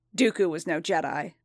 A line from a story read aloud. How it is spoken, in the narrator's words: Fett spat